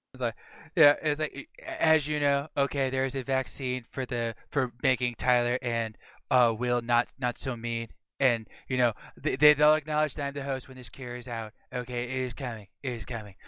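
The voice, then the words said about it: Donald Trump impression. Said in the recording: “taking some inspiration from honestly both candidates, but more so the orange one ... My Trump impersonation is actually pretty good, apparently.”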